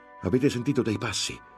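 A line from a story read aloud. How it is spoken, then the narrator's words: Shouting. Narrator (Italian): gridò Lorenzo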